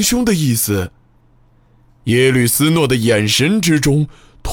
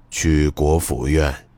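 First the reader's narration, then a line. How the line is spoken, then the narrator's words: Cold, low voice. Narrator (Chinese): 目光冰冷，声音低沉的说道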